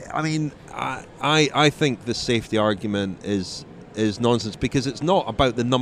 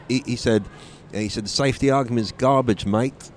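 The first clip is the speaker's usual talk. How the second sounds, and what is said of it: Poor put-on Australian accent. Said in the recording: “terrible Australian accent”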